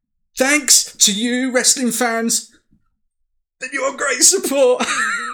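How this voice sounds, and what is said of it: Tony Khan promo impression. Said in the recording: “do a Tony Khan impression when he's cutting a promo”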